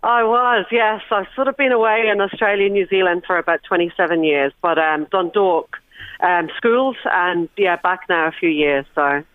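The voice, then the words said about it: Accent suggesting years spent abroad. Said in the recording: “that accent tells me you were away from home for a while”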